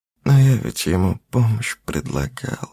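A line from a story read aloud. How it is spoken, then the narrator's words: Sad. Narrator (Russian): печально сказала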